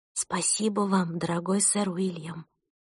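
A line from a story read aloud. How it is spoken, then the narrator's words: Whispered to herself. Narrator (Russian): прошептала я про себя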